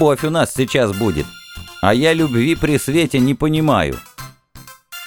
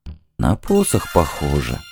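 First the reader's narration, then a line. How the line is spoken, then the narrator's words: Thoughtful mutter. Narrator (Russian): задумчиво пробормотал шаман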